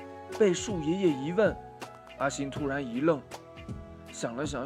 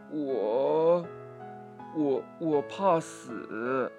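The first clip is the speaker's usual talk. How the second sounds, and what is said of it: Quiet, hesitant stammering voice. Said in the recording (Chinese): “小声地”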